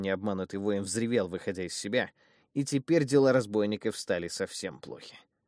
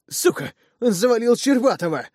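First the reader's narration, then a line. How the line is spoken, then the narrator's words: Alarmed shout. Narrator (Russian): обеспокоенно выкрикнул кто-то из напавших на нас братьев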